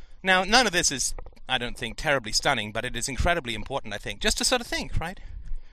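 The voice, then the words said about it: Speaking with a noticeable accent. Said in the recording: “people thought my accent was funny ... because of my accent”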